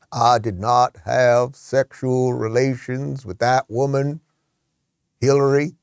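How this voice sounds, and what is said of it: Bill Clinton impression. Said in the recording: “I used to do a pretty good Bill. ... That was pretty good.”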